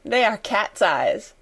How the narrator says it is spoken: laughed Sarah

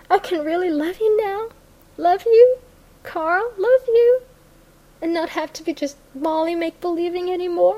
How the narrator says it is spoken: she cried

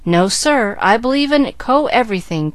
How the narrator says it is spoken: cried Chick, a mild youth

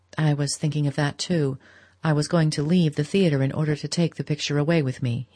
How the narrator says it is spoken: he said

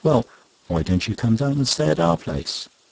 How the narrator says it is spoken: she very kindly said

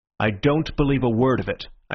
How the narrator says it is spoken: I said firmly

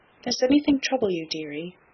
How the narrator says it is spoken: she only said in her tenderest tone

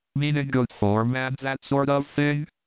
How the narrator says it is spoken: Von Bork sighed as one who had suffered much

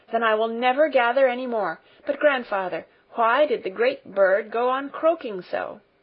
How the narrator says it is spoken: she continued in an eager tone of inquiry

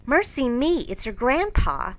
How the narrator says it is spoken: Joe exclaiming with alarm

